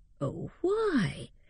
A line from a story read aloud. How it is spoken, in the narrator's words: said Sir James in a tender tone of remonstrance